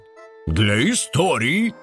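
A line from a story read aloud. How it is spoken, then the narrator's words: Through gritted teeth. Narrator (Russian): кролик процедил сквозь зубы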